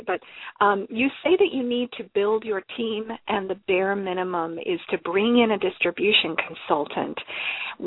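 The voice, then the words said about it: Voice strained from throat trouble. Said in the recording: “I'm recovering from some throat stuff. You could probably hear it in my voice.”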